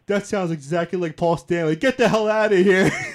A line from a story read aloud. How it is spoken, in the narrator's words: <laughs> like laughing hysterically